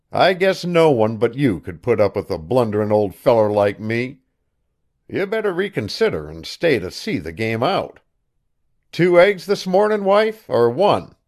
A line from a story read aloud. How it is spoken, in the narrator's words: he said cheerfully